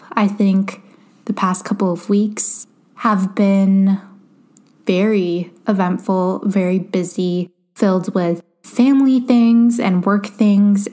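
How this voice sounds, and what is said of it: Tired, run-down voice. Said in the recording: “as you can probably tell in my voice, I'm feeling a little run down myself.”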